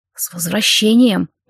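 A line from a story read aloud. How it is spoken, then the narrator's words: Whispered. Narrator (Russian): прошептал Владимир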